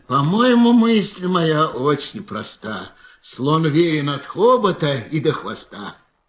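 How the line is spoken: Weary repetition. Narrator (Russian): он устало твердил

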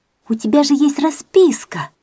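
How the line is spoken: Joyful exclamation. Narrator (Russian): радостно воскликнула

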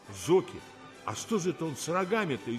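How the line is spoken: Frightened gasp. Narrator (Russian): испуганно охнул Бада

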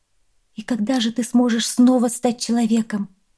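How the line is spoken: Asked in trembling voice. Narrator (Russian): спросила дрожащим голосом

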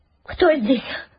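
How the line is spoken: Frightened cry. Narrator (Russian): испуганно вскрикнула Казимира

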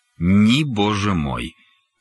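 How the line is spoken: Sighing. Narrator (Russian): вздохнули

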